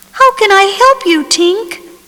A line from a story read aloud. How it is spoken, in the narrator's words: Peter cried